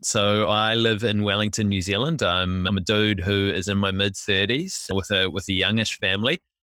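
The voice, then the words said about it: New Zealand English accent. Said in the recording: “you can probably tell my accent is slightly different”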